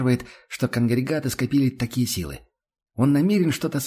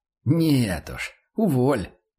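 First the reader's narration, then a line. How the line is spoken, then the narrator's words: Nervous grunt. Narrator (Russian): нервозно хмыкнул Фульва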